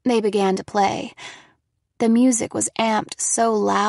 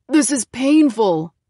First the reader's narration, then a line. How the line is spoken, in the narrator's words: shouted in my ear